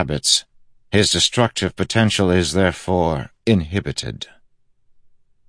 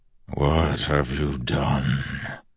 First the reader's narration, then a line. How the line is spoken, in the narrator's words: The distant voice sounded like rumbling thunder